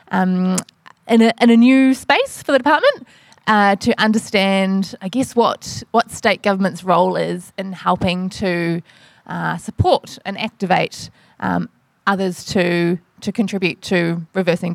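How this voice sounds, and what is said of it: New Zealand accent. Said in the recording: “I'm a New Zealander, you can probably tell from my accent”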